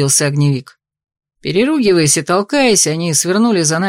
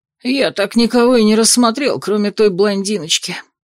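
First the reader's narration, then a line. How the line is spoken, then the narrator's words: Disappointed sigh. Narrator (Russian): разочарованно вздохнул Джет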